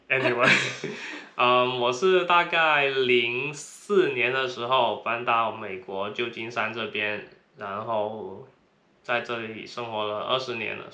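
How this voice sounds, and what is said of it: Heavy Cantonese accent in Mandarin. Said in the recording (Chinese): “口音很重，对，他听说大家都听得出来我是广东口音。”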